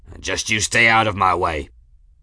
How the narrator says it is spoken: grunted, and said

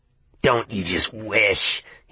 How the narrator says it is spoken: he sneered

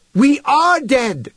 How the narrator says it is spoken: shouted Human

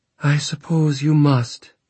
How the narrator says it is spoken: she said with a sigh

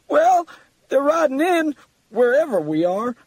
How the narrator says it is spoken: Muffin exclaimed

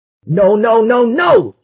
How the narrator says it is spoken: shouted

